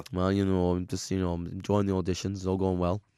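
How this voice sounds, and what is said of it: Impression of Simon Cowell. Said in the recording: “he's pretending to be Simon Cowell now ... it's a good impression. It's a good impression.”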